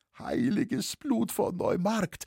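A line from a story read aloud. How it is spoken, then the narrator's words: Half-strangled whimpering. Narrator (German): wimmerte der Halberwürgte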